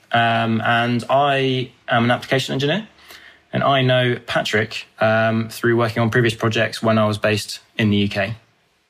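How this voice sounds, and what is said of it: British accent. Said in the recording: “originally from the UK, hence the accent”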